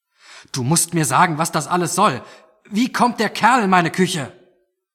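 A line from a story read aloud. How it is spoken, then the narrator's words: Shouted back. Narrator (German): schrie zurück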